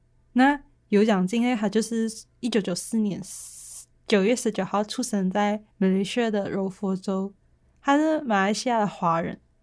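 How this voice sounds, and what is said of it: Malaysian Chinese accent. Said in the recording (Chinese): “我自己想要用比较 Malaysia slang 的方法跟你们来讲这一集的内容，就你会听到比较多我马来西亚的口音”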